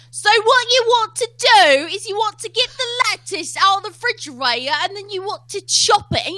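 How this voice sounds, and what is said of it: Put-on British-style accent. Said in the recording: “your weird British cousin has decided to take over ... I make up every accent I can”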